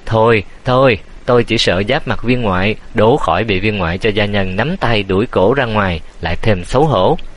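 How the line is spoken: Loud laughter. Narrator (Vietnamese): Tế Điên cười lớn

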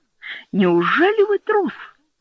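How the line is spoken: Exclaimed. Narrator (Russian): воскликнул Фредди

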